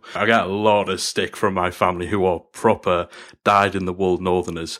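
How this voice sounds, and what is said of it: Softened northern English accent. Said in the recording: “fellow Brit ... my accent ... you're from up north ... I've softened my accent quite a bit now.”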